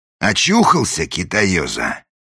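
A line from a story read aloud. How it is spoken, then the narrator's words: Menacing question. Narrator (Russian): грозно спросил вошедший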